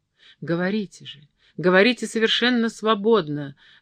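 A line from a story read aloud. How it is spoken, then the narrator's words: Tender babbling. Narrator (Russian): госпожа старшая стацдама ласково лепетала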